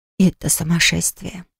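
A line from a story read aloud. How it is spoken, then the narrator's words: Whisper. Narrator (Russian): прошептала Лафу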